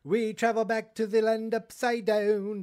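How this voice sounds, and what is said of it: Poor put-on Australian accent. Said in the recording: “That was a terrible Australian accent, terrible parody.”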